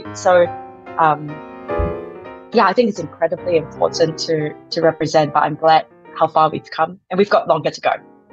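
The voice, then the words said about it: Non-native English accent. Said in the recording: “you hear my accent, you know, it's not from right here”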